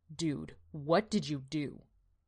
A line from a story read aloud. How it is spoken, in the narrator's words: he asked